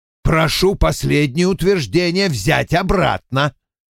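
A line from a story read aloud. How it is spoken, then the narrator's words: Barked. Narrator (Russian): гаркнул Вульф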